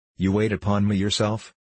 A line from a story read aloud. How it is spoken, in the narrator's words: he asked